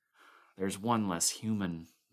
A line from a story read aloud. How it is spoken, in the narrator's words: Norris sighed